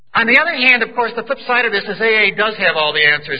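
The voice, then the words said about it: Boston accent. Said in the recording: “I was brought up in Boston. I hope you'll forgive my accent. My A vocabulary is Boston, general accent.”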